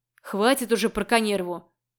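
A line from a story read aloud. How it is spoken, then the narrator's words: Irritated bark. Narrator (Russian): рявкнул Макс, снова раздражаясь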